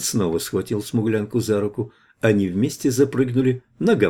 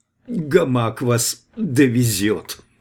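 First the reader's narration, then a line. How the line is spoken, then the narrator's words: Forced out, extremely bitter. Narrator (Russian): выдавила висящая с крайним озлоблением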